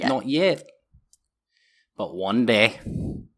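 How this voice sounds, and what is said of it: Weird put-on Scottish accent. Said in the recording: “what is this accent? ... It's like weird Scottish.”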